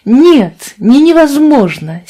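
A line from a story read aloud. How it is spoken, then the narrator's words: Earnest exclamation. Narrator (Russian): серьезно воскликнула Фиби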